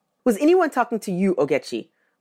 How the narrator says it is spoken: Mama asked

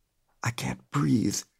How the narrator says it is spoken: whispered

